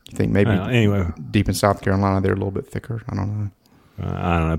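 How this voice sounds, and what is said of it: Southern US accent. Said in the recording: “we have the Southern accents”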